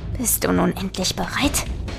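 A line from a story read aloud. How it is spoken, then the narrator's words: Corpse hissing. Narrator (German): zischte der Leichnam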